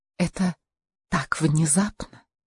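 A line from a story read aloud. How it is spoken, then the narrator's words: Nervous near whisper. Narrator (Russian): Страх выбрать неверный тон в разговоре, обещающем так много, заставил Каролину почти шепотом произнести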